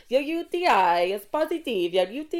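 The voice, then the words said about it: Put-on Italian accent, Borat-like. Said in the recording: “I sound like Borat when I'm trying to do an Italian accent”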